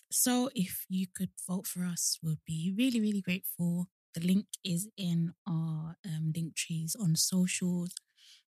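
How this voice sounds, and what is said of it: Congested, hoarse-sounding voice. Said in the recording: “I don't know why my voice is like this... almost like I have a cold, or like I've been shouting last night”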